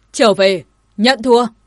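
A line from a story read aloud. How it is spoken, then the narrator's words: Sudden shout. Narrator (Vietnamese): vị Nhật Nguyệt cảnh của Đại Thường Phủ đột ngột quát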